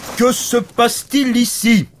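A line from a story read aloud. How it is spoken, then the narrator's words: Big brute shouting. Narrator (French): cria le grand chevalier costaud et stupide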